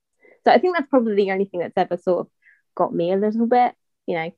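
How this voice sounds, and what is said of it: English accent. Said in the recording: “obviously you have how I'm talking ... it's definitely not a British accent, that English ... me being a bit protective of my accent”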